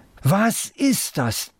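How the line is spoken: Loud this time. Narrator (German): diesmal laut

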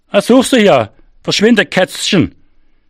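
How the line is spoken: Calling after someone. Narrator (German): rief er mir nach

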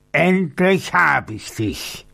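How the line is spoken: Roaring. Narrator (German): brüllte er

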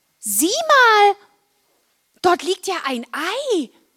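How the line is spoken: Calling out. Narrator (German): Marla rief

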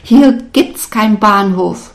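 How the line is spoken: Shouting in a foreign language. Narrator (German): schrie ich in meiner Sprache, die sie nicht verstand

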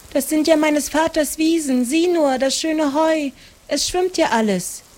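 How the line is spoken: Calling out. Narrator (German): rief Maren

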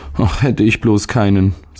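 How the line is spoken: Boy sighing. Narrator (German): seufzte der Junge

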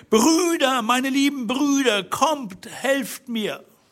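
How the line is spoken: Shouting loudly from a window. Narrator (German): rief so laut sie konnte zum Fenster hinaus

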